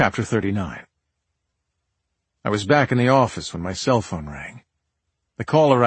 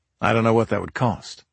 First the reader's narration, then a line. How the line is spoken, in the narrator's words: I said